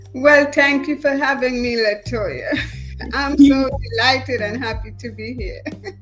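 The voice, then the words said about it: Trinidadian West Indian accent. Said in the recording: “our beautiful dialect is from the Trinidad West Indies”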